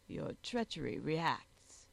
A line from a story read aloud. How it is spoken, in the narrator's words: she said in the tones of a sneer